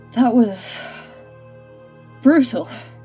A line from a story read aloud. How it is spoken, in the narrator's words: gasping